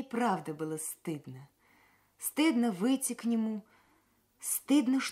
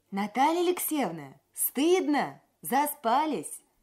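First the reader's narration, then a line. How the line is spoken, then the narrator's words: Shout. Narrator (Russian): Сиверс крикнул мне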